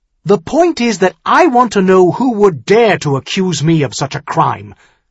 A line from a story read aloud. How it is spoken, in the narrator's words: Tyrion said hotly